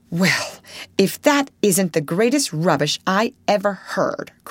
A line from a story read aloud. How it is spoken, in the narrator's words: cried Jo indignantly